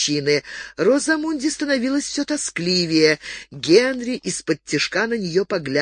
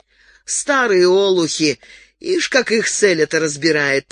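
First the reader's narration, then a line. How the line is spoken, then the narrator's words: Grumbling. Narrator (Russian): проворчала Даяна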